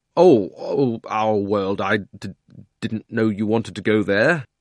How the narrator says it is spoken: Digory got very red in the face and stammered

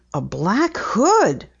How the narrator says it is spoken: Penny exclaimed

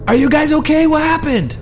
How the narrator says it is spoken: I yelled out

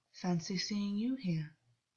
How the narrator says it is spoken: said, gently

